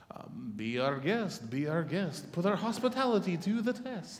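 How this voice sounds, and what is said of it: Singing in a French accent. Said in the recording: “That's the best French accent I can get.”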